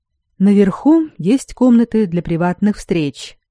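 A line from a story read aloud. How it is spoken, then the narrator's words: Calm explanation. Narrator (Russian): спокойно объяснил магистр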